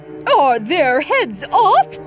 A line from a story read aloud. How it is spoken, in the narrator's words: shouted the queen